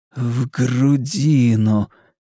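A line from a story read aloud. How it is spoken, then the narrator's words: Sighing. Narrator (Russian): И снова вздохнул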